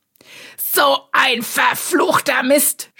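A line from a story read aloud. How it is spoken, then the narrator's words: Shouted. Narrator (German): schrie Strohsack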